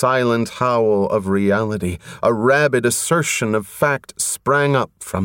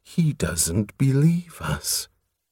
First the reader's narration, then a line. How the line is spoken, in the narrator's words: the unctuous voice purred